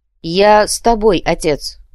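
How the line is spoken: Loud. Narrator (Russian): громко произнес Адриана

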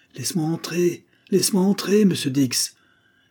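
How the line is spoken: Exclaiming. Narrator (French): s'écria la visiteuse

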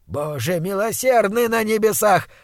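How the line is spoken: Shouting. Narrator (Russian): закричал он

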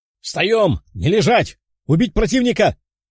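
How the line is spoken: Commander's shout. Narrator (Russian): кричал командир отряда

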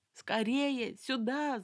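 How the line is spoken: Shout. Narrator (Russian): закричала Тамара

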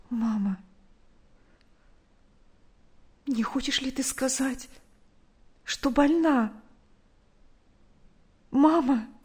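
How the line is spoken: Frightened quiet question. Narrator (Russian): Наташа испуганно тихо спросила

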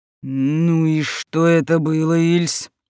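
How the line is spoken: Demanding growl, count. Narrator (Russian): требовательно рыкнул граф

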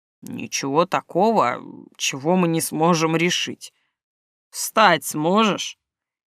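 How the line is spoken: Very tired voice. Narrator (Russian): голос звучит еще более устало, чем в начале осмотра

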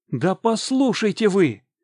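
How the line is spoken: Shouted. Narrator (Russian): крикнул я

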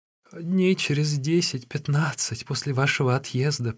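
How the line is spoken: Fake sobbing, daughter-in-law. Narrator (Russian): принялась рассказывать невестка, продолжая притворно всхлипывать

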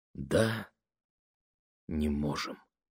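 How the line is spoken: Mother, soft but firm. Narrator (Russian): повторила мама мягко, но решительно

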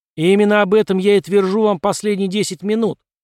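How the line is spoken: Triumphant shout. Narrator (Russian): триумфально закричал Брюстер

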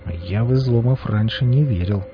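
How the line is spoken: Beggar's strangely quiet mutter. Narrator (Russian): странно тихо пробормотал нищий

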